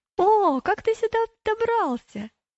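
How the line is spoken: Surprised exclamation. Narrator (Russian): слабоумный удивленно воскликнул

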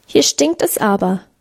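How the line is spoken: Squeaky voice. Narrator (German): piepste Hermann

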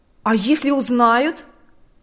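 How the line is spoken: Exclamation. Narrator (Russian): воскликнул Харитон

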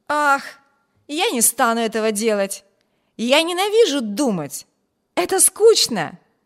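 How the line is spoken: Cheerful exclamation. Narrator (Russian): весело воскликнул Виберт

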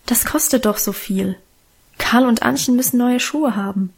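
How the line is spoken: Gentle objection. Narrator (German): widersprach Mutter sanft

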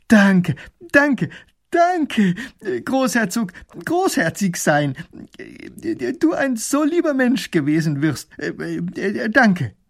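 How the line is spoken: Calling out. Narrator (German): Er ruft

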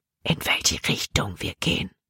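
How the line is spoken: Whisper. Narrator (German): flüsterte Jordan

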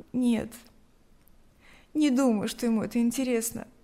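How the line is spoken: Sighing. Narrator (Russian): вздохнула Лика

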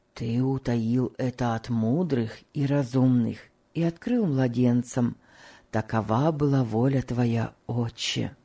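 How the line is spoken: Whisper. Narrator (Russian): прошептал Том

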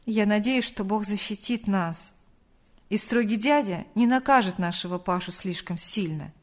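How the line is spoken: Sighing father. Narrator (Russian): вздохнув, ответил отец

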